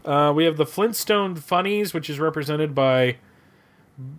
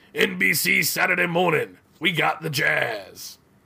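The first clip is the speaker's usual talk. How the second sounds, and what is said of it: Imitates another person's voice. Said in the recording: “that was my Mr. T impersonation”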